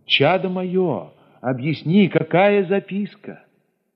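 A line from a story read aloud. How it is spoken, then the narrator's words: Impatient shout into phone. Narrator (Russian): Я нетерпеливо крикнул в трубку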